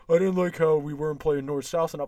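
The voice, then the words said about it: Hoarse, stuffy-nosed imitated voice. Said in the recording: “my David Quinn impression, that hoarse-ass voice like I have a stuffy nose”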